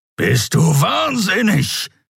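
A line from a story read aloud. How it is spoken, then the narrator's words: Growling. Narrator (German): knurrte der Skria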